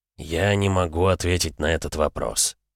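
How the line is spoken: Gloomy admission. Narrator (Russian): мрачно признался Штельмахер

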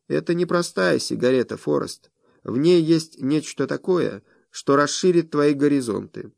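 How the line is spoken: Quiet. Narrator (Russian): Моус произнес негромко

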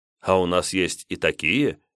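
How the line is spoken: Smirk. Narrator (Russian): хмыкнул я

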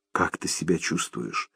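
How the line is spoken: Whispered question. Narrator (Russian): шепотом спросила Лиз

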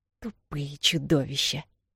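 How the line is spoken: Through gritted teeth. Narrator (Russian): Сквозь зубы проговорила она

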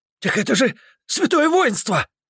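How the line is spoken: Shout from the right. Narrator (Russian): крикнул кто-то справа от Тарсия

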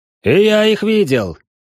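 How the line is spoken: Warrior shouting out. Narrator (Russian): выкрикнул другой воин

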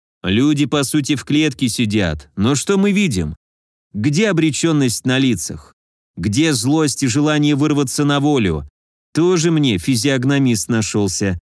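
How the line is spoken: Grumbling. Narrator (Russian): проворчал я

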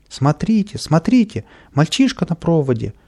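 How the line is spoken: Frightened shouting crowd. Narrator (Russian): испуганно кричали прохожие

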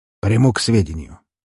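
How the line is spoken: Somewhat harsh tone. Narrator (Russian): жестковатым тоном ответил он

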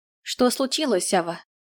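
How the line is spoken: Forced calm voice. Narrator (Russian): Постаралась взять себя в руки и сделать так, чтобы голос звучал спокойно

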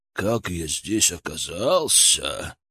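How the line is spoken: Growling. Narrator (Russian): прорычал он

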